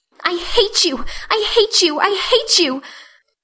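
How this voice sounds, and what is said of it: Choked, angry crying voice. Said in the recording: “she cried in a choked voice”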